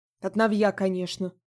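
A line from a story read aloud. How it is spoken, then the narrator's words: Snort. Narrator (Russian): хмыкнула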